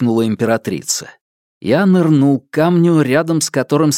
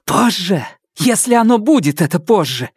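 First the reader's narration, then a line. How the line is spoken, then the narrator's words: Hiss. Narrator (Russian): зашипела Нелит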